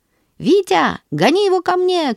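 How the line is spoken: Shouted. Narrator (Russian): кричал Сережа

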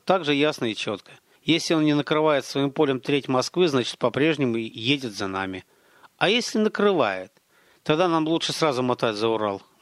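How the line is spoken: Gloomy. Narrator (Russian): мрачно проговорил Гарин

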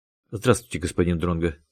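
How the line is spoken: Hurried. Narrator (Russian): торопливо проговорила Наталья

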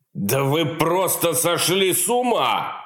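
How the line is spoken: Feigned indignant shout. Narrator (Russian): выкрикнул он наконец, стараясь, чтобы в его голосе прозвучало искреннее негодование

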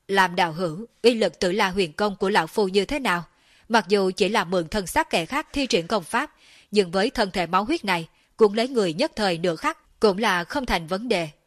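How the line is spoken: Loud laughing voice. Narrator (Vietnamese): tiếng cười to của Thiên Sát chân quân

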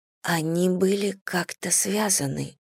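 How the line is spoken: Dry-lipped whisper. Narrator (Russian): прошептала я пересохшими губами

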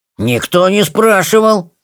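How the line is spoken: Offended. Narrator (Russian): обиженно отозвался Тимминз

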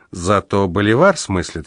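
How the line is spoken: Giggling. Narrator (Russian): хихикнул я

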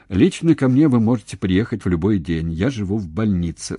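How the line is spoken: Plain. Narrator (Russian): сказал Устименко

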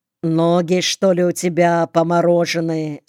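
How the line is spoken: Plain. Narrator (Russian): спросил он

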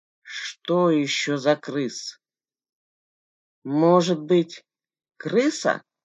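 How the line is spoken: Grumbled mutter. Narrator (Russian): буркнул Болдырь

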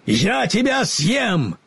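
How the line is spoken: Lion's roar. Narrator (Russian): лев ... проревел

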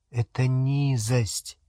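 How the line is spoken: Quiet female voice. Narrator (Russian): тихо сказала она

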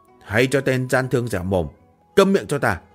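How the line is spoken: Barked command. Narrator (Vietnamese): Một thuộc hạ thống lĩnh đại nhân quát

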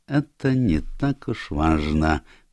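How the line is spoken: Gentle. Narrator (Russian): мягко сказал Пуаро

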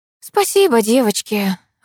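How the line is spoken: Sighing. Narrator (Russian): вздохнула я

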